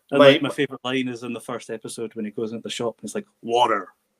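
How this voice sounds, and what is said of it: Lilting Scottish accent. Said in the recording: “my Scottish lilting accent”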